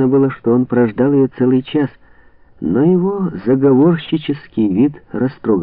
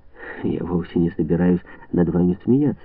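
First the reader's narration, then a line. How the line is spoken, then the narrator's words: Soft, gentle. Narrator (Russian): мягко произнесла она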